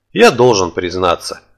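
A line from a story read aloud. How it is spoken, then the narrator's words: Sighing. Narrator (Russian): вздохнул я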